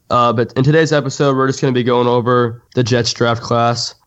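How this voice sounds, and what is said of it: Sick, strained voice. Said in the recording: “excuse my voice. I've been going through a little bit of a sickness.”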